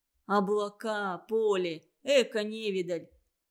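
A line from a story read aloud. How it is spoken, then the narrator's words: Scoffing snort. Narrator (Russian): хмыкнул Семушкин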